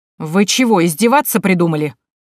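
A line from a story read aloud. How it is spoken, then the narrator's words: Barked angrily. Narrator (Russian): рявкнул на них Яичкин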